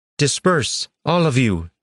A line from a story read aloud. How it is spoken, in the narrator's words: Iliardra shouted